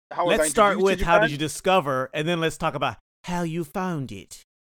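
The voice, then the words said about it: Poor put-on British accent. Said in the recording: “my terrible, terrible British accent”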